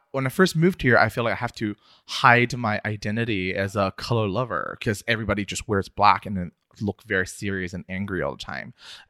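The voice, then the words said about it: Upper East Side New York accent. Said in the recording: “my accent have like a tone of Upper East Side bitch”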